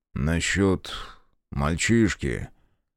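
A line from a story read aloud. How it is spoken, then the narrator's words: Quiet, hushed. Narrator (Russian): тихо начал Монрайт, будто им не следовало нарушать зыбкий ночной покой, свернувшийся под крышей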